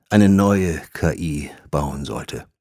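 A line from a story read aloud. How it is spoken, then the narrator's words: Sighed. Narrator (German): Harthaus seufzte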